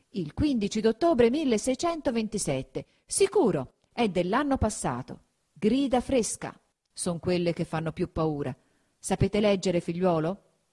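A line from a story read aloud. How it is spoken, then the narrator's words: Serious exclamation. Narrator (Italian): fatto un viso ancor più serio, esclamò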